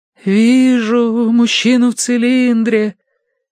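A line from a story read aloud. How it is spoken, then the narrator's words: Mournful drawl. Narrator (Russian): заунывно протянула она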